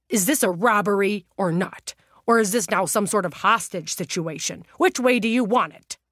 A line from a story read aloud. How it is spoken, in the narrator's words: demanded to know loudly and clearly